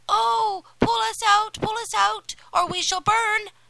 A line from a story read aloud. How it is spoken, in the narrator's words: The loaves cried out